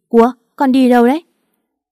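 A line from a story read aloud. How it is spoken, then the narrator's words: Trembling child. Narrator (Vietnamese): Con bé run rẩy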